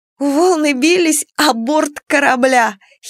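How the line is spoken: Amused giggle. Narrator (Russian): хихикнула Маня, до которой первой дошла комедийность ситуации

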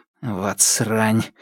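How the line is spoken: Muttered. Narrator (Russian): буркнул

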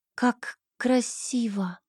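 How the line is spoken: Breathless exhale. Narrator (Russian): выдохнула я

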